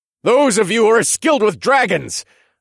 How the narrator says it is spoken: I yelled at my women

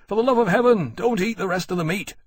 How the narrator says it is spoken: sharply to Temeraire

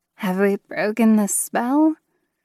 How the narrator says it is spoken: Rachel breathed

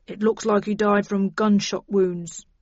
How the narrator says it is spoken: he said grimly

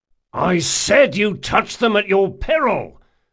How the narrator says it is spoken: Locke snarled for the third time

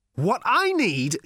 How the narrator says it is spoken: shouted Ford

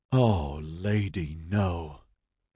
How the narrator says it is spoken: Ediard groaned

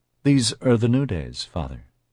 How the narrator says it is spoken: Justine said calmly

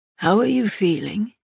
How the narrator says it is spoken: Castile asked, his voice rough

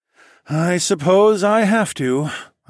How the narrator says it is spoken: I sighed dramatically

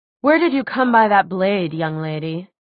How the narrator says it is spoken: Clary answered coldly

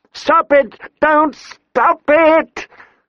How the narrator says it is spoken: Sansa screamed

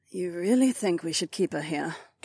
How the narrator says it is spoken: Kat mumbled

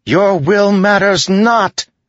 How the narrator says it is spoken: Syl shouted

